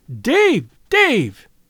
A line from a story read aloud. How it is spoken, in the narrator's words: cried